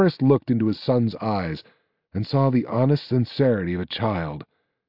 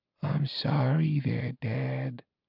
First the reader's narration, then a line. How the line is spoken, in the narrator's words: whispered Valerian